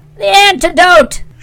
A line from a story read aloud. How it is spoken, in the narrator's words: she screamed